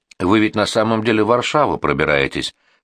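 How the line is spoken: Calm reply. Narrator (Russian): спокойно ответил торговец

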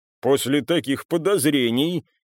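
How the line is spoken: Father chuckling. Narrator (Russian): хохотнул ее отец

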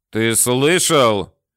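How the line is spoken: Barked. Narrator (Russian): рявкнул Толмачев

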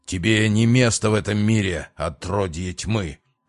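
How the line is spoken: Rough growl. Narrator (Russian): довольно грубо рыкнул настоятель

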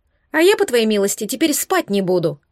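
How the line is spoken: Offended declaration. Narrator (Russian): заявила обиженно Марго

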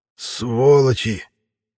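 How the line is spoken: Weak hoarse rasp. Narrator (Russian): Прохрипел я на мой слабый голос

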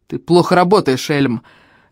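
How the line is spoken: Barking innkeeper. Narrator (Russian): рявкнул на него трактирщик

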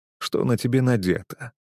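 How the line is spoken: Grim whisper in ear. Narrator (Russian): мрачно шепнул я ей на ухо

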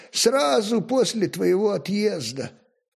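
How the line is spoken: Sad repetition. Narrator (Russian): печально повторил конюшенный

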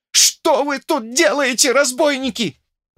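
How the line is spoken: Trembling yell. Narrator (Russian): завопил он, трясясь

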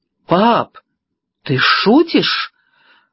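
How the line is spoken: Shocked exclamation. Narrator (Russian): воскликнула Мэг, побледнев как полотно

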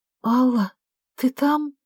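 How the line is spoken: Trembling voice. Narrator (Russian): дрожащим голосом спросила Вера

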